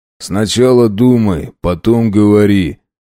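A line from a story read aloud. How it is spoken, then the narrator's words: Rough. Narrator (Russian): грубо произнес один из молчунов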